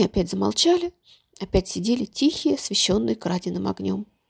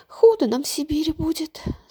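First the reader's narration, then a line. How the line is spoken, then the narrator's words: Sobbing. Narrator (Russian): снова всхлипнула она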